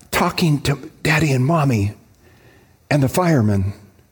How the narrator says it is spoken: came the whispered voice

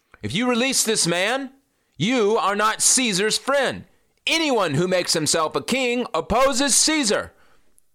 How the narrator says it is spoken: the Jews shouted

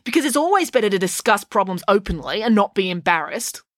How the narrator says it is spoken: snapped April

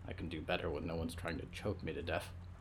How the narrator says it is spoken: Olivier muttered

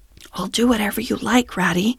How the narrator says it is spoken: he whispered

